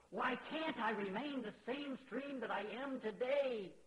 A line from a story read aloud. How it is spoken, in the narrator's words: cried out the stream